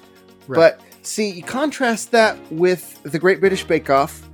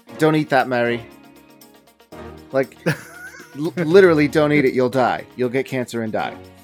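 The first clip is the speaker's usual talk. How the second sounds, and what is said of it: Deliberately bad imitation of another person. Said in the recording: “in the words of Paul Hollywood ... That was a terrible impression. ... But I'm gonna better it by doing worse.”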